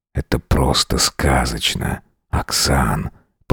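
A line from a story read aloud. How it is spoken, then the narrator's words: Soft whisper. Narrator (Russian): прошептал тихо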